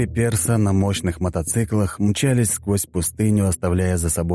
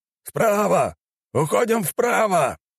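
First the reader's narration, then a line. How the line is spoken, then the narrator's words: Shouting. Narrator (Russian): закричал первый мотоциклист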